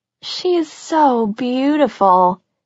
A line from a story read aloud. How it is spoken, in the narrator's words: Cassie sighed